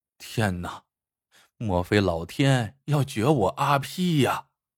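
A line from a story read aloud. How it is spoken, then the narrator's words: Sighing inner thought. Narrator (Chinese): 阿皮心里一声叹息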